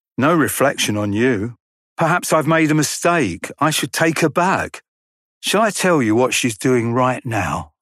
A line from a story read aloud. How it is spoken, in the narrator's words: I answered